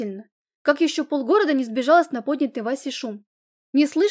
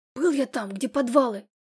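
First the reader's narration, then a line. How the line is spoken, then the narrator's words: Hoarse wheeze. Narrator (Russian): хрипел он мне в спину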